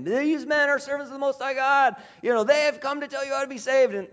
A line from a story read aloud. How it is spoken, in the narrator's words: this girl, presumably because of the spirit within her, is following Paul around and shouting at him